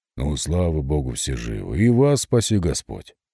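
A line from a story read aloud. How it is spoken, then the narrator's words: Even, steady voice. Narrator (Russian): сказал он ровным голосом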